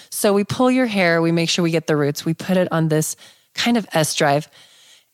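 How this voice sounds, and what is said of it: Phlegmy, congested, husky voice. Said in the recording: “I'm a little phlegmy today from allergies. I'm having a hard time breathing. And it sounds like I have my sexy voice on too.”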